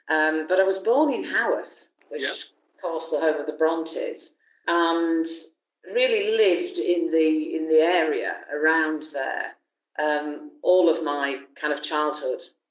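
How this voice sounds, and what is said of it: Yorkshire English accent. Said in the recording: “you can hear from my accent that I'm a Yorkshire girl”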